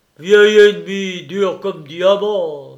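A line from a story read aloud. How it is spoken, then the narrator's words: Simpleton's exclamation. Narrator (French): s'écria tour à tour l'innocent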